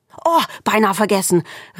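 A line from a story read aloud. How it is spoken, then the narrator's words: Calling out. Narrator (German): rief sie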